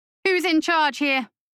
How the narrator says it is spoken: thundered

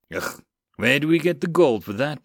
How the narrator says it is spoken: Blake sighed

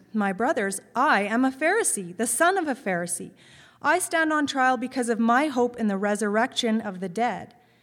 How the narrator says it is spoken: Paul called out in the Sanhedrin

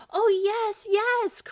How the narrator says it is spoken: cried all the children

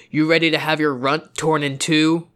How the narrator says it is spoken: Amicus yelled, voice thick like her creature

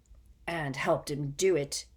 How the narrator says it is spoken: murmured Moody

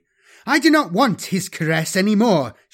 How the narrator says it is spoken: she spat

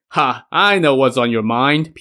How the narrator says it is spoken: Pure Essence chuckled

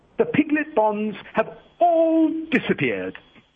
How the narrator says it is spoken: Banker triumphantly

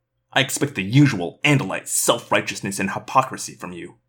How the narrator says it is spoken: Eslin spat

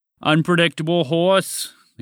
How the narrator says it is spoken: the great Gonzalo announced in a deep voice

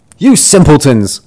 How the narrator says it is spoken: cried he

